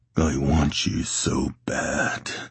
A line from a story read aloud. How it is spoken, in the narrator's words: he rasped against Logan's mouth